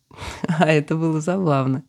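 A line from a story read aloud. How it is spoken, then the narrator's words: Laughing, out of breath. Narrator (Russian): продолжая смеяться, сказала спутница, переводя дыхание после безумного кружения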